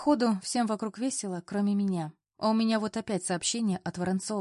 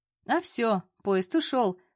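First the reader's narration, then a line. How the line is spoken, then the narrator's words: Laughing chuckle. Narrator (Russian): хохотнула Лиза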